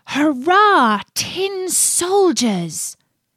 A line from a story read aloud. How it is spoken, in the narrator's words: exclaimed by a little boy